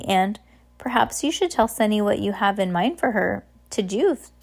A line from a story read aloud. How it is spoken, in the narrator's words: Fiona said gently